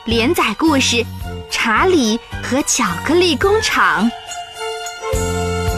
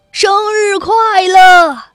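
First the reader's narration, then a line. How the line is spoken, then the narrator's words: Nervous laugh. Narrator (Chinese): 紧张地笑了笑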